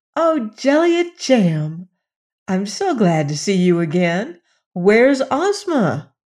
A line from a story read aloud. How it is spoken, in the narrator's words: with evident pleasure and exclaimed